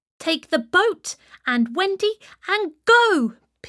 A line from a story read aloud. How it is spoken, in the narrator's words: Peter shouted to the boys